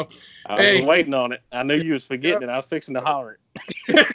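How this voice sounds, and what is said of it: Southern country accent. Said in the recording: “Love the accent. ... You got to leave us country boys alone.”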